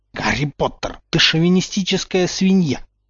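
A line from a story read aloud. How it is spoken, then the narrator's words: Pale angry hiss. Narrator (Russian): зашипела побледневшая Гермиона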